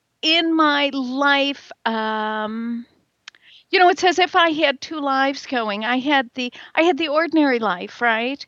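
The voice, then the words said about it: American Midwestern accent. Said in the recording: “I'm very much a Midwesterner. You can probably hear it in my accent.”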